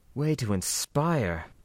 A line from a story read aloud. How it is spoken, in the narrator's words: the merc muttered sourly